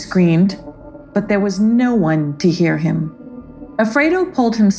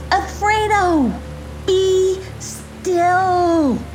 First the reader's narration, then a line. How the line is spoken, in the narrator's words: Loki called out